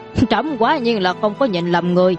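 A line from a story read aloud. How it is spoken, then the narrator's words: Startled, then loud laughter. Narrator (Vietnamese): Trần Hoàng giật mình, sau đó lại cười lớn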